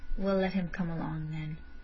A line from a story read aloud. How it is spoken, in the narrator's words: saying huskily